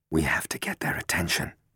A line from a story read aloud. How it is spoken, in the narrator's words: Matt whispered